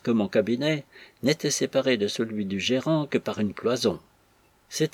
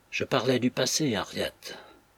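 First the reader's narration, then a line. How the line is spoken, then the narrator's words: Brother speaking low. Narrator (French): dit son frère à voix basse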